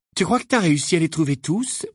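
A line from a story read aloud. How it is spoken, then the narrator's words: Mock-worried question. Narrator (French): demanda James d'un ton faussement inquiet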